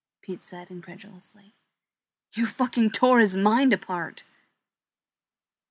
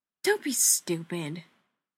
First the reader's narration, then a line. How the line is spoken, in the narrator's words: Haley said scornfully